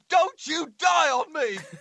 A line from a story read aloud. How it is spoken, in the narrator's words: he screams